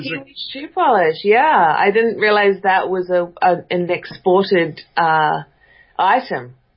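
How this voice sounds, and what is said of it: New Zealand accent. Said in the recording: “I detect an accent... I'm a New Zealander”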